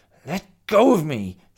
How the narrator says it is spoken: snarled Mia

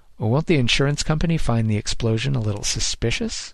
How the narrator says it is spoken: Grossman chuckled again

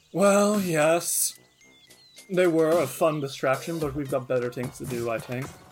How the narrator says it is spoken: the hobgoblin chuckles and says

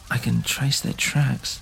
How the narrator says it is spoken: Hemero whispered to himself

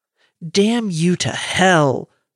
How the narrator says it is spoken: roared

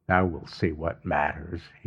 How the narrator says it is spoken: he muttered

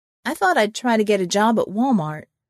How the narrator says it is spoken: I said

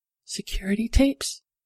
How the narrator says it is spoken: Cecile whispered

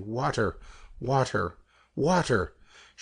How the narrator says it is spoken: she panted

